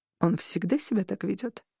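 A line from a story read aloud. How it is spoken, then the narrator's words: Quiet question. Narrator (Russian): тихонько спросил у меня Гастон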